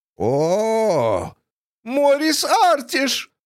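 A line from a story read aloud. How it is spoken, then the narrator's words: Shouted out. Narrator (Russian): выкрикнула Фанни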